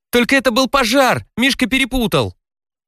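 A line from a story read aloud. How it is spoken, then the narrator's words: Exasperated shout. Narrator (Russian): Я не выдержал и крикнул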